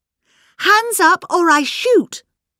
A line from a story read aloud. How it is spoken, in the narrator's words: cried Miss Bunner